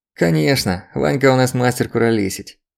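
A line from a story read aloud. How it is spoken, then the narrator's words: Hoarse chuckle. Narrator (Russian): Альберт хрипло хохотнул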